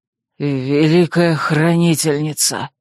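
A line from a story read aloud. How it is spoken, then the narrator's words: Hoarse breathed exclamation. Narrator (Russian): хрипло выдохнул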